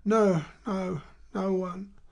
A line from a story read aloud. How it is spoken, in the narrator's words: Emma said in a broken voice